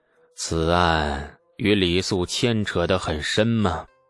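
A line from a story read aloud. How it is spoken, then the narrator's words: Slow, drawling. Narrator (Chinese): 李世民慢吞吞地说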